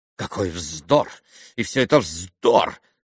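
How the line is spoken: Muttering. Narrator (Russian): бормотал он

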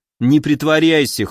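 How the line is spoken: Wry snort. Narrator (Russian): хмыкнул я

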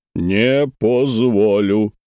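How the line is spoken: Deep voice, Ural accent. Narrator (Russian): пробасил он с непередаваемым уральским акцентом

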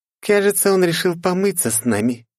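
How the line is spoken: Snide mocking tone. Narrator (Russian): ехидно оскалилась Лифа

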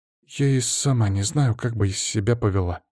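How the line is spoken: Mumbling. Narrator (Russian): пробормотала Лиза

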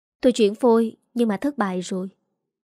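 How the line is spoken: Sighing reply. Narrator (Vietnamese): Tôi thở dài đáp

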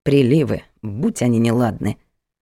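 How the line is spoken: Muttered. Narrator (Russian): пробормотала она

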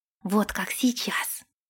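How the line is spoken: Hissing whisper in ear. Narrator (Russian): свистящим шепотом произнесла Генри ему в ухо

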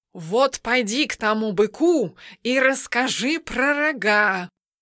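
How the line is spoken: Hissed. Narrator (Russian): прошипел кот

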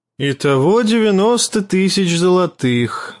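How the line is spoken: Sighed. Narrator (Russian): вздохнул

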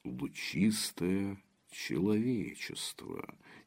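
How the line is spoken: Quiet. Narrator (Russian): тихо произнес Игнат Ромашин

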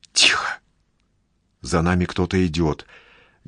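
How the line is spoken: Whisper. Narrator (Russian): говорит шепотом Даша

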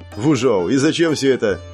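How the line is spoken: Mocking question. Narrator (Russian): насмешливо спросил я

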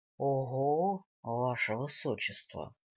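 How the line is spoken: Drawn out. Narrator (Russian): Элронец протянул

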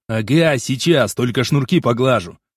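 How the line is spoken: Grumbling mumble. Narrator (Russian): пробурчал я

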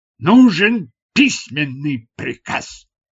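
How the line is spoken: Barked. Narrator (Russian): рявкнул

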